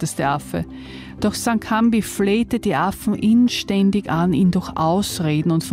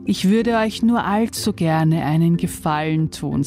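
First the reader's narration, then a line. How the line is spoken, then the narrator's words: Plain. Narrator (German): sagte St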